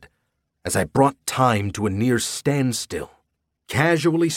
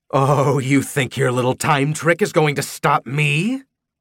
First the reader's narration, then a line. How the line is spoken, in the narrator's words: She snarled